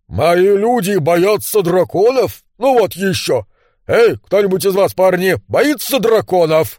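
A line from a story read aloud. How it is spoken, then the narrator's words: Loud shout. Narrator (Russian): громко крикнул он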